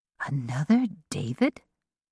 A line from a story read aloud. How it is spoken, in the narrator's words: Jocelyn whispered